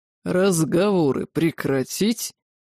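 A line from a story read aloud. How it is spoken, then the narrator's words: Demon's growl. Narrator (Russian): рыкнул крылатый демон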